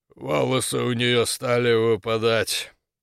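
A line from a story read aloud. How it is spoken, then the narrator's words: Muffled, submissive. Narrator (Russian): глухо заговорил торговец, подчинившись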